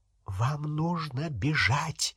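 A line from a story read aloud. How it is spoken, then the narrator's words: Professor's whisper. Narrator (Russian): прошептала профессор МакГонагал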